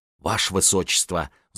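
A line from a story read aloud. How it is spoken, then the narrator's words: Whisper in ear. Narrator (Russian): зашептала она на ухо принцессе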